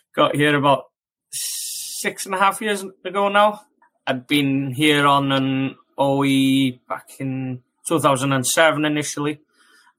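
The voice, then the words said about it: Slight Welsh accent. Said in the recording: “that hint of an accent ... I'm a bit of a lost Welshman.”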